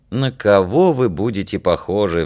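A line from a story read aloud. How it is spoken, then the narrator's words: Sighing. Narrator (Russian): вздохнула Данка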